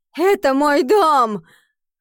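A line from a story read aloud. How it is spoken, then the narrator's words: Sobbing, furious. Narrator (Russian): Рыдая, Рут яростно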